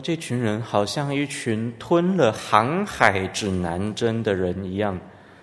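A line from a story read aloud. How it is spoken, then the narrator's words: Marveling exclamation. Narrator (Chinese): 当时的人 惊叹说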